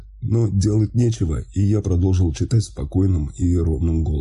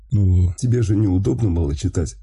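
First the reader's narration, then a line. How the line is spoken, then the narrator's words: Suppressed laughter. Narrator (Russian): Стараясь не рассмеяться, ответил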